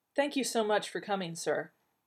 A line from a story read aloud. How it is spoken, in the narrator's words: she said quickly